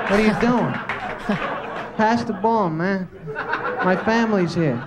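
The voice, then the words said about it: Imitates teammates' voices. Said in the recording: “my impression of the four other guys on the team with Wilt during a timeout”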